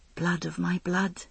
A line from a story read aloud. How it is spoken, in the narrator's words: I whispered